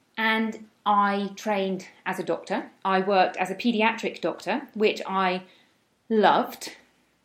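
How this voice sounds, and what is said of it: British accent. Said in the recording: “I am from the UK, as you may be able to tell by my accent.”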